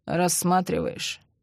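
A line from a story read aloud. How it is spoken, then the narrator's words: Grumbling. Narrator (Russian): бурчал Андрей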